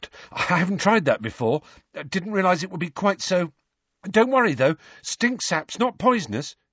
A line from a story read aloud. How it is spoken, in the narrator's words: he added nervously